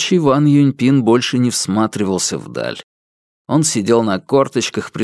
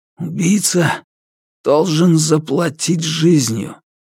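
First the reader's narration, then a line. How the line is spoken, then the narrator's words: Forced through gritted teeth. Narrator (Russian): рабочий Ван Юньпин сквозь зубы выдавил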